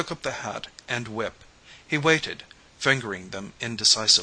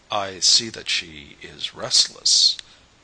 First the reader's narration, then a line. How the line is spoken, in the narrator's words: the painter spoke in a low tone, half hesitating